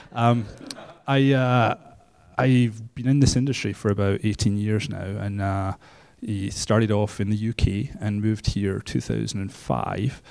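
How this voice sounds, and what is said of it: Scottish accent. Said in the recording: “My accent's Scottish”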